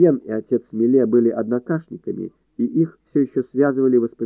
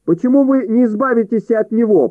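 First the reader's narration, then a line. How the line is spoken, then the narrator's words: Shrill shout. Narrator (Russian): пронзительно выкрикнул Борис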